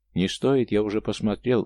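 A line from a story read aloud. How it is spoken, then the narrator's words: Gloomy reply. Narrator (Russian): мрачно ответил Иван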